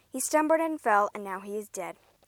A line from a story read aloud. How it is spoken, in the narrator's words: the man said